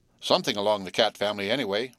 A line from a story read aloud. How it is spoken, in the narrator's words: replied Frank